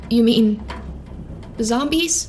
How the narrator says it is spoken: Rose asked, her voice small and shaking

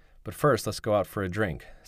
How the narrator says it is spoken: said Benjamin

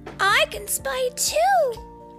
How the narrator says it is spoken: shouted Poppy

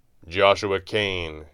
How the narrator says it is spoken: intoned gravely

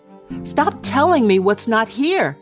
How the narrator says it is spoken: Granddad yells, suddenly forceful

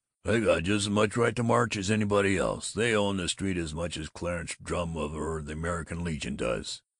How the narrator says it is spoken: Babbitt grumbled

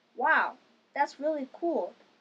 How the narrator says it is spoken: exclaimed Fluff

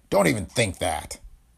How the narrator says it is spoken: O'Hara barked at him

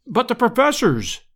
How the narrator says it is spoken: I cried, in consternation

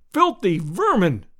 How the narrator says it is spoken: I cried

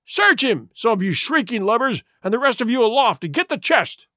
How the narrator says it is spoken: he cried

